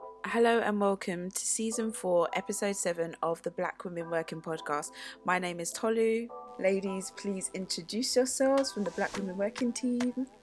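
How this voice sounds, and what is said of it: Newsreader-style formal delivery. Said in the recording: “why do you sound like a newsreader?”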